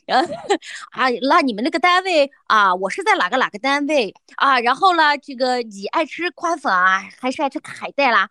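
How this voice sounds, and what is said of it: Imitating heavy regional dialect. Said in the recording (Chinese): “满嘴的方言，跟我说话这样子的”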